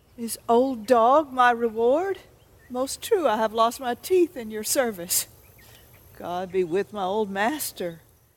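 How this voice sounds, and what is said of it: Shakespeare in an Oklahoma accent. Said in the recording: “Shakespeare and an Oklahoma accent sounds pretty natural”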